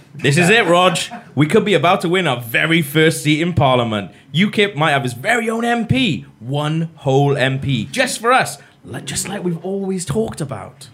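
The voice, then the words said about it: Nigel Farage in Welsh accent. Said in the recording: “Farage is going to sound really Welsh.”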